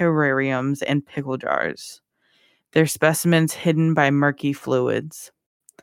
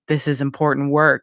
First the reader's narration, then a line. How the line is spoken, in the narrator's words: growled, an unseen darkness creeping into his voice